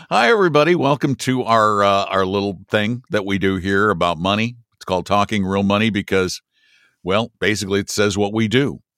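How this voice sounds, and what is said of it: Deep, slightly raspy voice. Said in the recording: “my voice sounds even deeper. I'm a little raspy today.”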